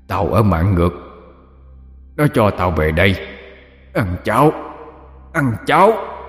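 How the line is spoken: Deep gruff male voice. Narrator (Vietnamese): phát ra cái giọng ồm ồm của một người đàn ông nói tiếng Kinh lơ lớn

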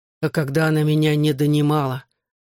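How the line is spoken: Snapping retort. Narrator (Russian): Огрызнулся я

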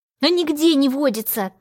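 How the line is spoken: Demon's angry reply. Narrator (Russian): как-то зло ответил мне демон

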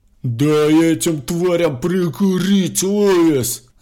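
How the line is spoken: Shouting. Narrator (Russian): заорал он

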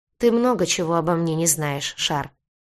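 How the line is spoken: Sighing. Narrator (Russian): кожевенник вздохнул

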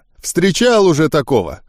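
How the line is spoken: Snort. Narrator (Russian): хмыкнул он

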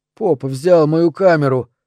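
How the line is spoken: Tearful wheeze. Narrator (Russian): просипел, глядя мокрыми, покрасневшими глазами

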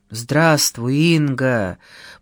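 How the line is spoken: Hoarse, breaking voice, coughing. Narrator (Russian): проговорил хриплым, срывающимся голосом и вдруг закашлялся

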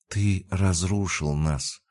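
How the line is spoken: Whisper. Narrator (Russian): прошептала она

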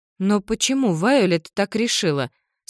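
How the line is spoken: Plain. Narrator (Russian): спросила Мара

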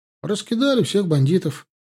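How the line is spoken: Cheerful brisk report. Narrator (Russian): бодро рапортовал Славка

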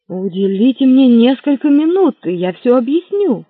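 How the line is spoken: Joyful exclamation. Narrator (Russian): радостно воскликнул Лафайет

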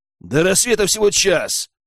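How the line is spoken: Snapped. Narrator (Russian): огрызнулся Герман

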